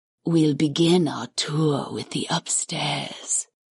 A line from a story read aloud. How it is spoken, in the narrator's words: the goddess purred